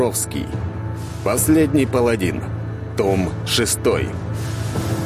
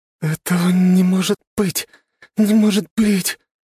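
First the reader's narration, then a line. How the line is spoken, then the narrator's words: Trembling, repeating. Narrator (Russian): Дрожащим голосом раз за разом повторяла Камилла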